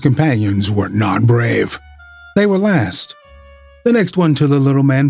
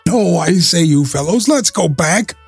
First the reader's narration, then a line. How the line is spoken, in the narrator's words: cried